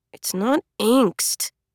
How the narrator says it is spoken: murmured

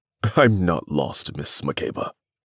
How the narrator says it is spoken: said in an amused tone

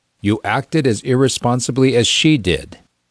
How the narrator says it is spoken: his father reproved, without raising his voice

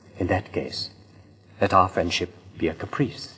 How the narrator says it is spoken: he murmured

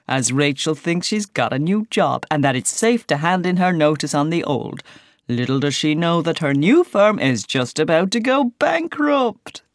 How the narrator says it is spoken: laughingly invites

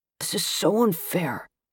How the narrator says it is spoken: the boy grumbles

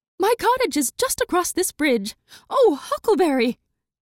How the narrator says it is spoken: exclaims

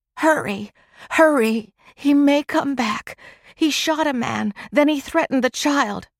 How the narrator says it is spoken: Margie could only moan

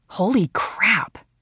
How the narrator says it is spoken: Christy whispered

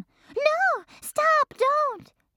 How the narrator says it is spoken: shouted Lucille

